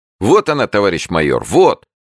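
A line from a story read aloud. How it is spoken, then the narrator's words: Young man shouting. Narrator (Russian): кричал совсем молодой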